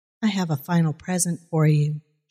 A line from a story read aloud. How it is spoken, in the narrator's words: she said